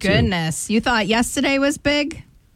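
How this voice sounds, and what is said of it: Noticeable regional accent. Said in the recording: “There's your accent again. I can't get over it.”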